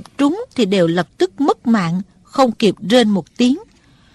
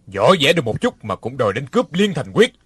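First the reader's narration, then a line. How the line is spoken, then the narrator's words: Cold laugh. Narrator (Vietnamese): Đinh Điển lạnh lùng cười nói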